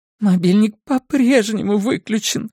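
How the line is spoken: Sobbing. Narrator (Russian): всхлипнула Синтия

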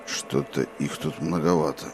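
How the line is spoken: Muttered. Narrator (Russian): пробормотал Роланд

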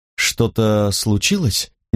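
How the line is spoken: Uncertain. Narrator (Russian): неуверенно предположила Тария

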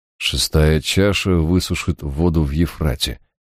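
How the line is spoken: Muttered under breath. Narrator (Russian): пробормотал я себе под нос

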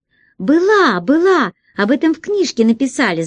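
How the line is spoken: Shouting. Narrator (Russian): закричала Дурында

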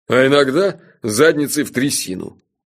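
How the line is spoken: Mocking. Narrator (Russian): насмешливо подхватил Джуфин

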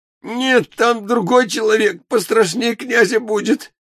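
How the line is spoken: Sobbing, frightened. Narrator (Russian): всхлипнул Проха

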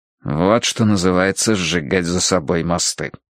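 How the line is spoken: Muttered. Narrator (Russian): пробормотал я

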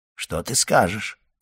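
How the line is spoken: Quiet question. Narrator (Russian): тихо спросил он ее

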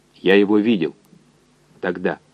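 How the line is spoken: Quiet. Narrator (Russian): так же тихо сказал координатор

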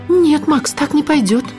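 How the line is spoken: Frightened. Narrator (Russian): испуганно сказала Миламори

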